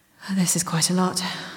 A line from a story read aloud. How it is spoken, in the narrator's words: breathed through the burn of the alcohol